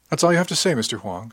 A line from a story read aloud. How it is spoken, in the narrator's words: asked